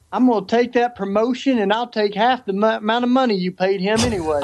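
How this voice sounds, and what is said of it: Southern American accent. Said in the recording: “you have a better Southern accent than he does”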